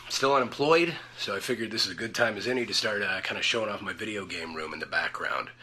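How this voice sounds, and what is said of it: Deep, congested voice. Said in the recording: “having some sinus trouble. So I have this nice deep voice”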